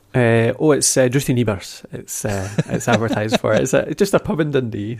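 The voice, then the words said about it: Scottish accent. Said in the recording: “your wonderful Scottish accent”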